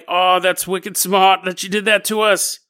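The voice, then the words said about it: Bad put-on Boston accent. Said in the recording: “the people in Boston are like ... how about I stop doing this bad accent?”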